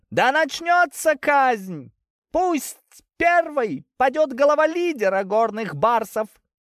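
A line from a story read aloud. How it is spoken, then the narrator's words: Orator's joyful near-shriek. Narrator (Russian): Чуть ли не взвизгивает от радости оратор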